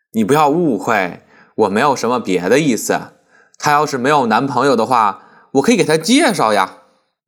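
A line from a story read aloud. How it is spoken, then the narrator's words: Laughing. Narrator (Chinese): 洪才笑道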